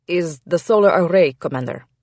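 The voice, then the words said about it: Thick Russian accent. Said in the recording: “his Russian accent thick.”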